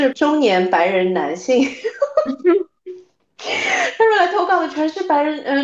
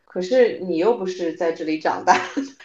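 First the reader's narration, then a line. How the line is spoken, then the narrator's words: Mocking. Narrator (Chinese): 嘲笑他说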